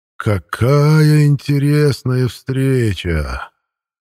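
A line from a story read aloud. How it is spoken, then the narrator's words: Drawled. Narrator (Russian): протянул Контериил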